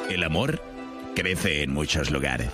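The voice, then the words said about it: Documentary narrator voice. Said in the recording (Spanish): “poner voz de documental”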